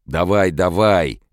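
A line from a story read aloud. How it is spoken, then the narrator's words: Yelling. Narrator (Russian): вопил Донован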